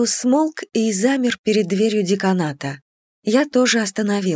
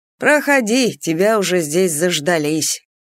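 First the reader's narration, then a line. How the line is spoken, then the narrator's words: Snide. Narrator (Russian): ехидно проговорил хранитель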